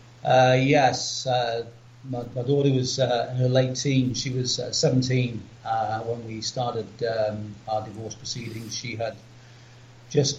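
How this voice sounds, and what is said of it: English accent. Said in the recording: “you can probably tell we both have English accents”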